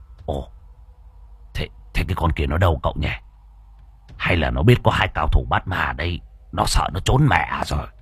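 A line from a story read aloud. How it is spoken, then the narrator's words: Old man muttering. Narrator (Vietnamese): Lão lẩm bẩm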